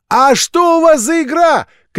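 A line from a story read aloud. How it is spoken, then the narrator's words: Mother shouting after. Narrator (Russian): крикнула мать вслед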